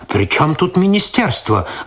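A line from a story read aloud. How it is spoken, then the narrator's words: Irritated reply. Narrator (Russian): раздраженно ответил тот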